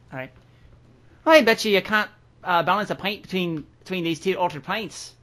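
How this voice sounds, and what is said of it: Put-on Irish accent. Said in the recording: “Have fun with this Irish accent”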